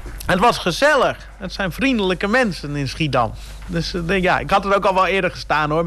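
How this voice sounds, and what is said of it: Mild Frisian accent in Dutch. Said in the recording (Dutch): “ik hoor een accent, maar niet storend ... En ik kan het nog verstaan, dus het is geen echt plat Fries”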